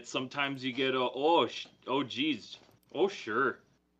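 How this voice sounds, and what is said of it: Exaggerated Minnesotan accent, long vowels. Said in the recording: “my Minnesotan accent ... sometimes it slips ... Vowels are long for us Minnesotans.”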